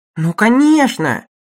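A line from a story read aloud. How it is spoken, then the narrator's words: Enthusiastic exclamation. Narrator (Russian): воскликнул Лоусон в порыве воодушевления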